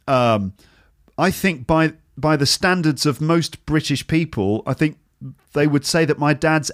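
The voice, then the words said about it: Southern English accent. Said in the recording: “people who speak like me in the south of England, certainly the southeast of England”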